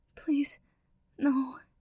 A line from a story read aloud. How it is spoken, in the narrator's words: a whimper, a strained